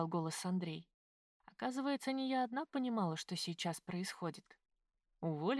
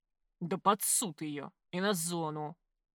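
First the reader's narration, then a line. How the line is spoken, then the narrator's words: Growl. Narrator (Russian): прорычал Георгий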